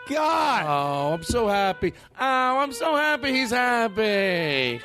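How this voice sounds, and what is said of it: Imitates a cartoon character's voice. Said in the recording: “I do the voice. ... Fran Drescher. ... No, I do the voice on Bob's Burger.”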